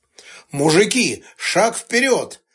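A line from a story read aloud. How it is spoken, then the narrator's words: Barking shout. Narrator (Russian): гаркнул Сташевич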